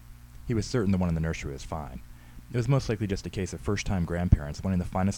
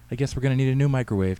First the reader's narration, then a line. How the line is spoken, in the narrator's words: Tammy said